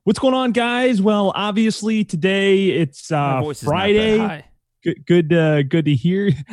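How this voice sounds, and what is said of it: Radio-style announcer voice. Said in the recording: “You have like more of like a radio like.”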